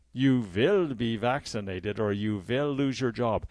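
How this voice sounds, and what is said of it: Poor put-on German accent. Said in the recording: “that's a very poor German accent”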